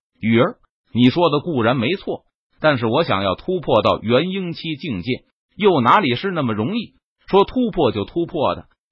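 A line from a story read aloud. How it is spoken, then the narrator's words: Laughing explanation. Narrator (Chinese): 陈宇闻言，他笑着解释道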